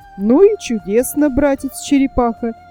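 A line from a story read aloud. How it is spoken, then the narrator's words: Exclamation. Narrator (Russian): воскликнул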